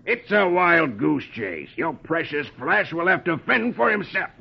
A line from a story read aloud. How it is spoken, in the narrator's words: grimly stubborn, and he growls